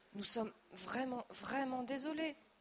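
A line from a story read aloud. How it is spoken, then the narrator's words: Father stammering. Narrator (French): bredouille papa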